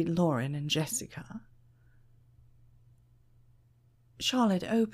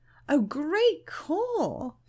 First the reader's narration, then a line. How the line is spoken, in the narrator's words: exclaimed